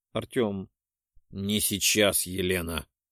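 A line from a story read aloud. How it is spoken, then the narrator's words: Growl. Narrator (Russian): рыкнул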